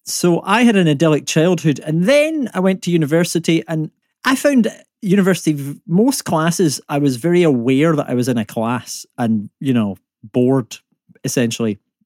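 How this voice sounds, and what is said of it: Scottish accent. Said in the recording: “when I say the word law in my accent, it's not the way most British people say it. It's very Scottish. And a lot of people hear me saying the word war rather than law.”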